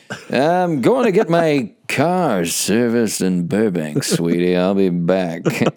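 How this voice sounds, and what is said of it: 1950s husband character voice. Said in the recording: “my impression of a 1950s husband going to cheat on his wife”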